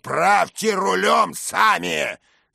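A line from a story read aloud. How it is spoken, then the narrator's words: Thundering with curses. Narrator (Russian): с проклятиями прогремел он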